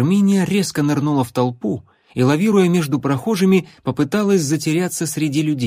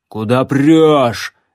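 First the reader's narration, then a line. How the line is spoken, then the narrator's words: Barked. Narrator (Russian): рявкнул Громила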